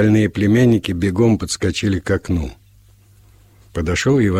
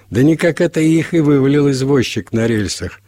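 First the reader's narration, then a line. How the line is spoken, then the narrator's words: Cheerful announcement. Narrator (Russian): объявил весело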